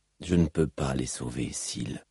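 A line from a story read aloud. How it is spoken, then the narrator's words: Anguished murmur. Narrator (French): murmura Kaladin au supplice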